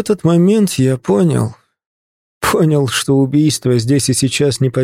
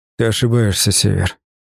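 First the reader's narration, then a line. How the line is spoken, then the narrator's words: Quiet. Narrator (Russian): сказал тихо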